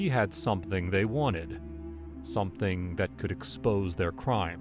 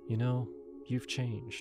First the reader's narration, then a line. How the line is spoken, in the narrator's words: she said, her voice soft